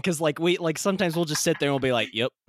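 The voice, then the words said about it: Southern American accent. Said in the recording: “It's because we're Southern, man. ... So that's a Southern thing. ... I do really like your accent. ... your accent's stupid.”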